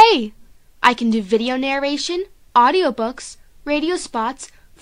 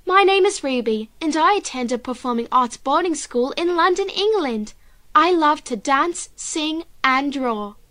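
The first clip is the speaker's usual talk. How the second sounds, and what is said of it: Put-on British accent. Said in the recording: “I can also do a British accent, just like this.”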